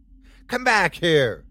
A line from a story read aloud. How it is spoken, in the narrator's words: Elisa shouted